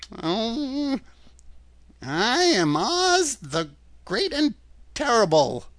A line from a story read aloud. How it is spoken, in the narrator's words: said the little man in a trembling voice